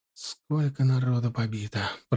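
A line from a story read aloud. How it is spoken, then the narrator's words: Muffled speech. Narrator (Russian): проговорил глухо Блохин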